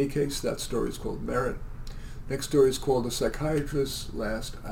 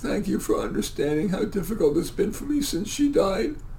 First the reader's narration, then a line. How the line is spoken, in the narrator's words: The patient sobbed